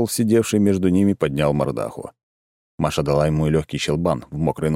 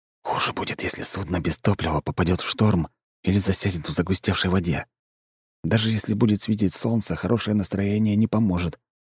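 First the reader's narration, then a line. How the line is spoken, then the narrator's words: Whispered in ear. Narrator (Russian): прошептал Кирилл Маше на ухо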